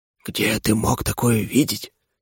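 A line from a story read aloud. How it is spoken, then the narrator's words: Quiet spirit's question. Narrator (Russian): тихо спросил дух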